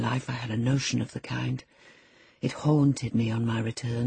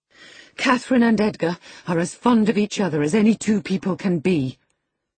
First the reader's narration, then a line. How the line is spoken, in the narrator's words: cried Isabella, with sudden vivacity